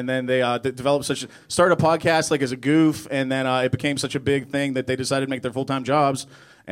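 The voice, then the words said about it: Polished radio announcer voice. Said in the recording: “You seriously have a radio voice going on down there.”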